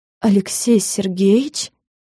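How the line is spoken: Hoarse question. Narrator (Russian): охрипшим голосом спросила

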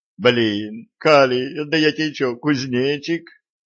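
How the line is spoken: Silent inner wail. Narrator (Russian): мысленно взвыл Виталик

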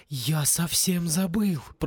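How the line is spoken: Whispered. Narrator (Russian): прошептал Югурус

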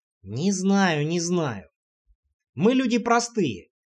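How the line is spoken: Skeptical snort. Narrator (Russian): хмыкнул Дмитрий

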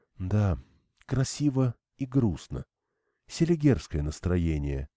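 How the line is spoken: Quiet. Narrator (Russian): тихо сказала Ирина

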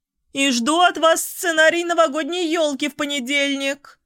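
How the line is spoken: Shouting after someone. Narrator (Russian): крикнула мне вдогонку Анна Ивановна

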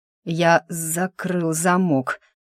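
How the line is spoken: Growled, mage. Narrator (Russian): прорычал маг

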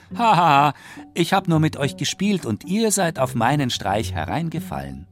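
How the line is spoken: Shepherd boy, laughing loudly. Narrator (German): Der Hirtenjunge lachte laut und sagte

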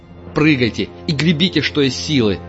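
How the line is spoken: Barked command. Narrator (Russian): рявкнул на них Парт

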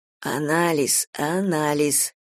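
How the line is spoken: Husband's quiet reminder. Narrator (Russian): тихо напоминал муж

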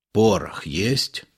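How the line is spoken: Whispered question. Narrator (Russian): шепотом спрашивает Илларион

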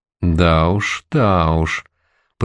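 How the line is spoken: Drawled. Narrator (Russian): протянул Сизощекий

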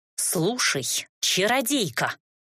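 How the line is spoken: Impatient growl. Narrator (Russian): рыкнула я ей в лицо, потеряв терпение

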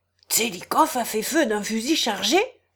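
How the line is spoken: Brisk gentleman. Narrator (French): dit vivement un gentilhomme

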